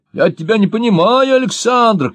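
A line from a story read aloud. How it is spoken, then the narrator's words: Shout. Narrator (Russian): крикнул я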